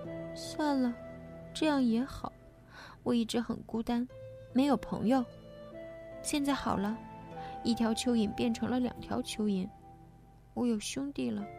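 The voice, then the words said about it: Weak, faint voice. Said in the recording (Chinese): “他用微弱的声音说”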